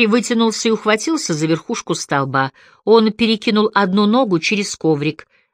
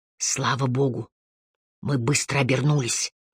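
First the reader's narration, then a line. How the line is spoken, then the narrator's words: Whisper. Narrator (Russian): шепнул Харри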